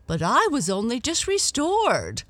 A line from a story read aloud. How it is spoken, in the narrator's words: Lady Cotterell called out, swaying as if she might faint